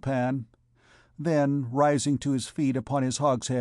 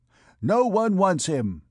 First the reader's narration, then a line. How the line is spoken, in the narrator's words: he exclaimed, imitating the accent of an auctioneer